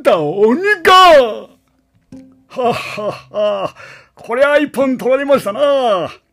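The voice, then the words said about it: Imitated cartoon character voice. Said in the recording (Japanese): “声真似でした”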